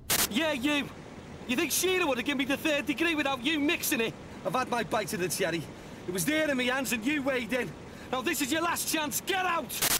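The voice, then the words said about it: Angry Liverpudlian Scouse accent. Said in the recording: “Liverpudlian accent, Scouser, so he's from Liverpool ... Very angry.”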